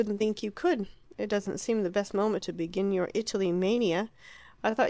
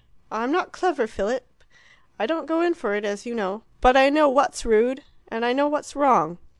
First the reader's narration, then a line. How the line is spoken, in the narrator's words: The martyred Harriet exclaimed